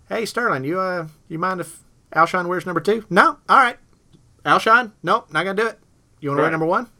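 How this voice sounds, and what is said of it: Poor imitation of another person's voice. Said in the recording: “my Spurrier imitation was awful ... It's getting better. It really is getting better. It's because you're doing shorter sentences.”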